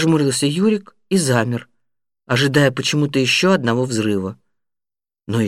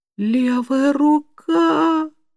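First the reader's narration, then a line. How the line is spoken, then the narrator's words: Howling. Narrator (Russian): взвыл Юрик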